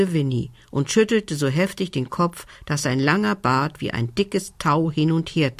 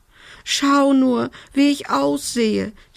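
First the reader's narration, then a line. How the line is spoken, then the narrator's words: Whined. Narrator (German): jammerte sie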